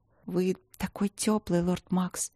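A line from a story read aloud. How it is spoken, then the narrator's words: Muffled whisper into chest. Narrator (Russian): шепнула Алина ему в грудь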